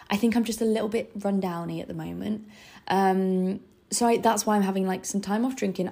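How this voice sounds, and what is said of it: Gravelly, rundown voice. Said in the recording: “my voice is really gravelly”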